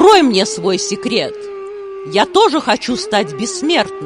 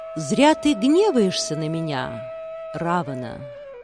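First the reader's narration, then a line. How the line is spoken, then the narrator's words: Calm. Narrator (Russian): спокойно произнес Нарада Муни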